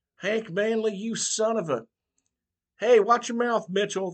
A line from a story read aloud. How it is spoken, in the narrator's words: the preacher shouted